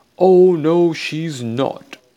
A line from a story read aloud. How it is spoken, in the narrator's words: yelled Getabout